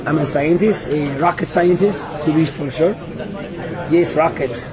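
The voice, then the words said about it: Deep put-on German accent. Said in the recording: “with a deep, deep German accent”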